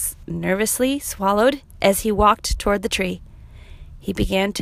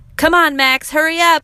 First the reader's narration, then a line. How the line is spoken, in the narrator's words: yelled his friends